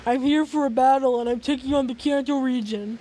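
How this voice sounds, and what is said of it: Slightly deeper character voice. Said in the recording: “He spoke in a slightly deeper voice”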